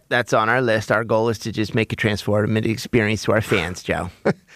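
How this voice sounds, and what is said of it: Josh Harris impression. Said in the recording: “Really good as a Josh Harris impersonator”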